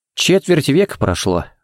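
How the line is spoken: Sighing. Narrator (Russian): вздохнул Харри

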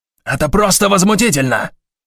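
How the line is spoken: Angry yell. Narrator (Russian): заорал Шандлер

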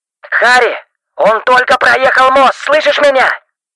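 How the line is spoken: Shouting into phone. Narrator (Russian): Стив буквально кричал в трубку

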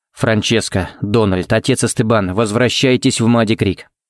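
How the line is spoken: Forced calm, even tone. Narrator (Russian): сказал он самым ровным и спокойным тоном, на какой был способен

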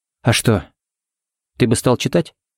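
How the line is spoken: Calm question. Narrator (Russian): спокойно спросила Сеймур

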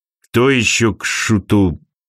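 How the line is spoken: Muttered. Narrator (Russian): пробормотал Архангел

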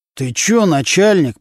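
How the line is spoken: Speaking through gritted teeth. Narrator (Russian): процедил сквозь зубы Нечипаренко

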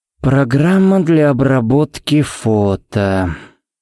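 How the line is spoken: Drawled. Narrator (Russian): протянул Харри

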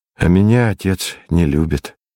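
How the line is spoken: Sad. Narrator (Russian): сказал я грустно

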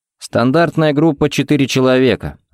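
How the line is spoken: Plain. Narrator (Russian): ответил Ричмонд

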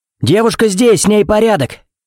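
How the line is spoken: Shouting from a distance. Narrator (Russian): крикнул лейтенант от машины

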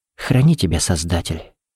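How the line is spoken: Whispered. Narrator (Russian): прошептала

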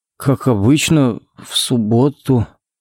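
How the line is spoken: Uncertain drawl. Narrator (Russian): неуверенно протянул Коннорс

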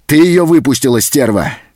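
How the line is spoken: Threatening shout. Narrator (Russian): закричал он

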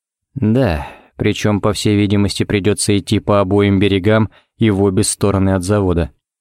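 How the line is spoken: Gloomy. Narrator (Russian): кивнул Ричмонд еще более мрачно

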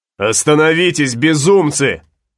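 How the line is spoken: Shouting. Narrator (Russian): закричал Флорес

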